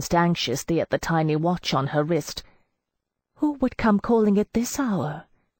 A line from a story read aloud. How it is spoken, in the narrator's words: she asked in a hollow voice